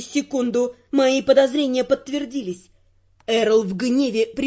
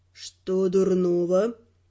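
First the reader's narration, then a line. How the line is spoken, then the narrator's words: Calm question. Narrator (Russian): спокойно переспросил Раймонд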